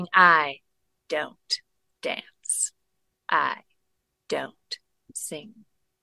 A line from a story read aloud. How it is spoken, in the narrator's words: growling at Rabbit, saying